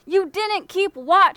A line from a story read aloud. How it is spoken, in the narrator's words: he yelled, his face red